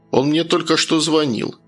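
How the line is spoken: Dry, curt. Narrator (Russian): сухо проговорил Евгений

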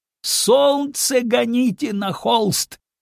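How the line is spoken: Shouting. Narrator (Russian): кричал Саврасов

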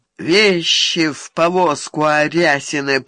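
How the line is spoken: Unctuous drawl. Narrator (Russian): вновь елейно протянул

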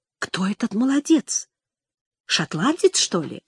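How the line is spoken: Question in undertone. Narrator (Russian): спросил вполголоса

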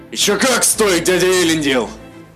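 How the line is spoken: Snapped back. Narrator (Russian): Огрызнулся Мируэль

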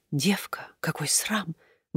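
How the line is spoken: Distinct whisper. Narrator (Russian): были произнесены столь внятным шепотом

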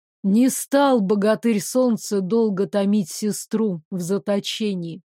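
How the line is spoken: Calm. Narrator (Russian): спокойно сказал Девислав

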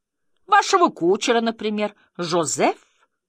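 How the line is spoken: Indignant exclamation. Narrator (Russian): воскликнула хозяйка возмущенным голосом

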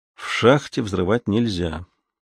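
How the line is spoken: Tired reply. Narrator (Russian): устало ответил Зуга

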